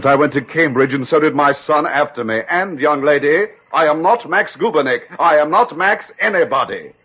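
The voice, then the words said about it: English accent. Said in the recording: “that English accent”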